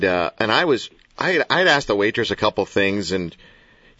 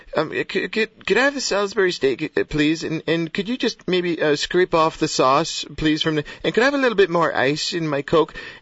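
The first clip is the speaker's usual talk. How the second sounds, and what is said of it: Imitates another person's voice. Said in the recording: “That's a good imitation of Larry.”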